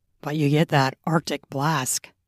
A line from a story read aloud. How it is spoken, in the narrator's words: he chuckled